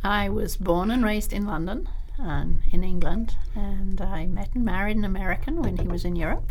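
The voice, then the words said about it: Lovely non-local English accent. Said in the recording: “You have a lovely accent. You don't sound like you're a Reno girl.”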